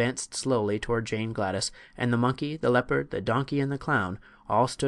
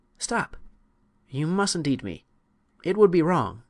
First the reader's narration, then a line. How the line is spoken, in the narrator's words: the child had a sudden thought and cried out